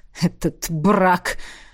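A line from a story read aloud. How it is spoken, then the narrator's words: Snort. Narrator (Russian): фыркнул Паэрт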